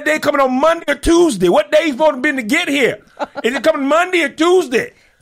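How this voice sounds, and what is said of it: Yelling imitation of another person. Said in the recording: “why are you yelling”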